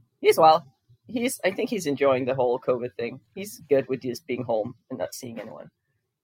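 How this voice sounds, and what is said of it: American accent. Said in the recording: “you sound very American now at this stage.”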